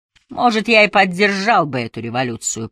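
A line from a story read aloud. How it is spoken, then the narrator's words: Grumbled. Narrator (Russian): проворчал Дуг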